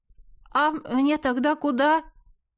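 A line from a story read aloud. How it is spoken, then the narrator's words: Timid question. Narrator (Russian): робко спросил он, мгновенно растеряв всю самоуверенность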